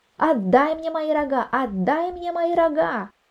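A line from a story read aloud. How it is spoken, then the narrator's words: Shouting until hoarse. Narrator (Russian): Так кричал, так кричал, даже охрип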